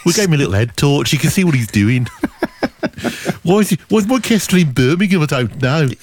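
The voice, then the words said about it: Put-on West Midlands accent. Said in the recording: “now I've started, I can't stop the accent ... what's the deal with the West Midlands”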